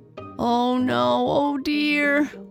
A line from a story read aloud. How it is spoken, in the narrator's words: wailed Elsie